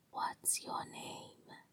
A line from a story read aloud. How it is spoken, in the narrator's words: whispered